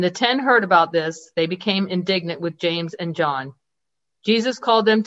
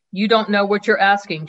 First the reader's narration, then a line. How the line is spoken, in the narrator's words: Jesus said